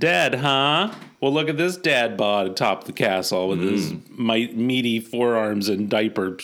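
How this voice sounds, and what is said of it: Usual voice. Nothing is said of it.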